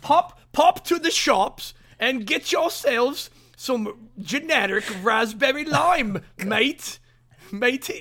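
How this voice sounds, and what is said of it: Put-on British accent. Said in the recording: “Do it in a British accent. ... Oh, wait, that's Australian.”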